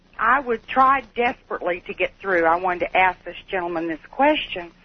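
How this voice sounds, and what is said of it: Regional American accent. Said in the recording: “God, I like your accent.”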